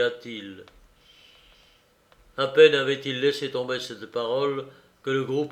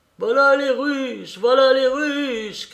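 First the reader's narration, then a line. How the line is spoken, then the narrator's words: Shouting. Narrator (French): criaient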